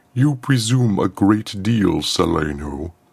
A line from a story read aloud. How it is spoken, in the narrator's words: rumbled Throne Eluan